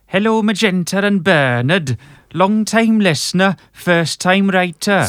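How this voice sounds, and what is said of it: Put-on Welsh accent. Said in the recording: “This one's from Wales, so do the voice”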